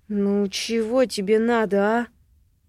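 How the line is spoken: Irritated question. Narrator (Russian): Спрашиваю раздраженно

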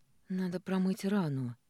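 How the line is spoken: Hoarse rasp. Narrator (Russian): сиплю

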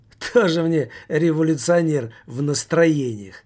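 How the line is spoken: Laughing. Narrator (Russian): Таммазо Кампанелло рассмеялся

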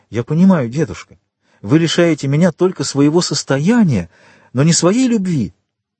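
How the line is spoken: Exclamation. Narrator (Russian): она воскликнула

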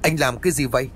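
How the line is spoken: Loud shout. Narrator (Vietnamese): Thanh Ngọc bước tới rồi hét lớn

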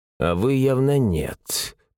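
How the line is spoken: Grumbling mutter. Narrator (Russian): пробурчал

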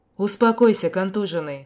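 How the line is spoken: Snort. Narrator (Russian): хмыкнул я

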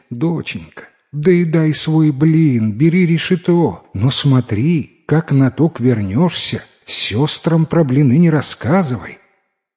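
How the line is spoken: Mother, sighing. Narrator (Russian): Мать вздохнула и говорит

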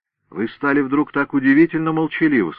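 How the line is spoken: Plain. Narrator (Russian): сказал Нагель

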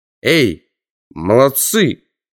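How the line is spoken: Shouting. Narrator (Russian): крикнул я

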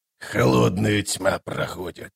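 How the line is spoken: Grumbled. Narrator (Russian): пробурчал он

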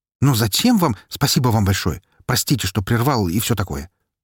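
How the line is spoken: Quick thanks. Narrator (Russian): Быстро поблагодарил

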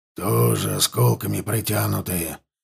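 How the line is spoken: Hoarse growl. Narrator (Russian): прорычал Лотар хрипло

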